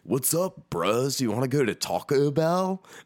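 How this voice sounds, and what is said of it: Put-on California accent. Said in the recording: “he used to do the best impression where he'd just ... like do this really California, like”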